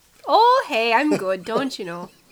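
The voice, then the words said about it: Mixed Minnesotan Canadian Irish accent. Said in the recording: “What accent would you call that? In my mind, it's Minnesotan ... It was a whole bunch of things. ... probably Minnesotan, and I think maybe veering towards a little bit of Canadian, then there was a little bit that was not Canadian. It was maybe offensively Irish, and that it was not good.”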